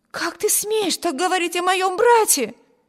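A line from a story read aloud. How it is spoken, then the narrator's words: Exclaimed. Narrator (Russian): воскликнула Эми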